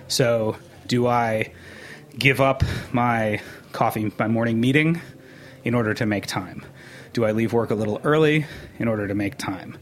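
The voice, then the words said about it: Out of breath, breathy speech. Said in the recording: “you can hear I'm out of breath.”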